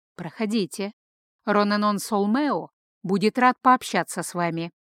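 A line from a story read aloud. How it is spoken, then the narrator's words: Quiet, very polite, calm. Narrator (Russian): Юноша вновь не удивился, тихо, предельно вежливо произнес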